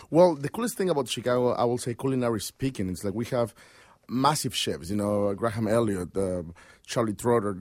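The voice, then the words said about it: Noticeably accented English. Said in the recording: “I hope people can understand my accent”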